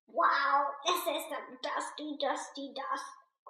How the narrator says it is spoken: croaked Lambie

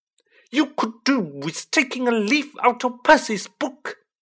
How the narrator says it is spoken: yelled Mrs

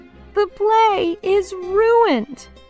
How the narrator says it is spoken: cried Fox

